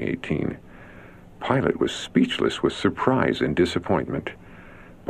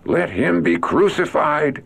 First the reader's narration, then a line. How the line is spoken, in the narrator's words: With one voice they cried